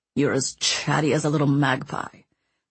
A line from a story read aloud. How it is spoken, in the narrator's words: Mancini growled